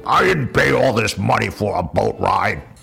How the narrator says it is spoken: One old passenger grumbled

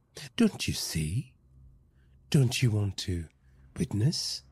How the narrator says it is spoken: cooed

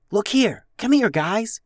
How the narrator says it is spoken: whispered Alice

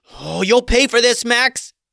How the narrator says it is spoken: Gertrude yelled, seething with anger

